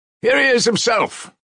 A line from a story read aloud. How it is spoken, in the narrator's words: shouted a loud voice